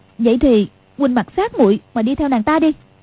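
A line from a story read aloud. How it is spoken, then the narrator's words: Angry. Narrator (Vietnamese): Quách Phù tức giận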